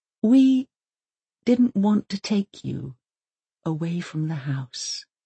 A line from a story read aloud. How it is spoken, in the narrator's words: he whispers